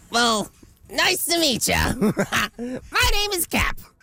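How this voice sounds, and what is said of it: Distinct put-on character voice. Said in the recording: “put on different voices for each of the characters ... make them distinct and unique”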